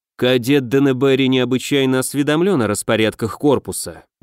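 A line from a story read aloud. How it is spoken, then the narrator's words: Gloomy reply. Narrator (Russian): мрачно отозвался огневик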